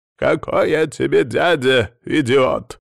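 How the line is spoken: Growled. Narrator (Russian): прорычал Адамыч

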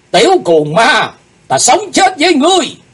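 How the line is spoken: Group shout. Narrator (Vietnamese): bọn chúng cùng quát lên

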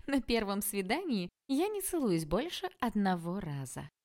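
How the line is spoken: Ringing laugh. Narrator (Russian): звонко рассмеялась Василина

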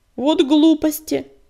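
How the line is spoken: Protesting snort. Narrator (Russian): протестующе фыркнула рябинка

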